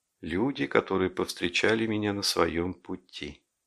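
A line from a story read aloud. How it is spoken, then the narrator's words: Muttering. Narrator (Russian): бормотал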